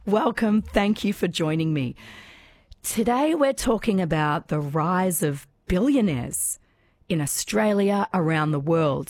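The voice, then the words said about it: Voice partly lost, strained. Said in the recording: “I've just kind of lost my voice a little bit this morning.”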